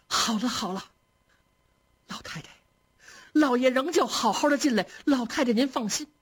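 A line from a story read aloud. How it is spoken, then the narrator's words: Hurried, tearful. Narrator (Chinese): 已然哭作一团了 赶紧说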